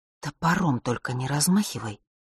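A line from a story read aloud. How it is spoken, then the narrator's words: Sober, displeased whisper. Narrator (Russian): шепнула она неожиданно трезвым, недовольным голосом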